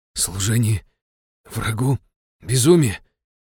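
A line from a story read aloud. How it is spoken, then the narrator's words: Hoarse rasp. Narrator (Russian): Прохрипел я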